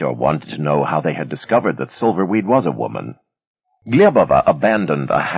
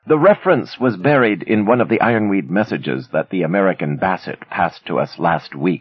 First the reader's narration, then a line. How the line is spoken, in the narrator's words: she said